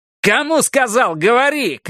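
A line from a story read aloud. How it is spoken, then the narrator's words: Shout. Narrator (Russian): крикнул он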